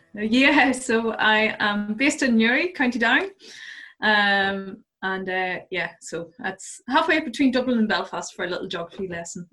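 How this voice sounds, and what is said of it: Irish accent. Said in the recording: “you have a lovely accent there. So you come from the good country by the sounds of it”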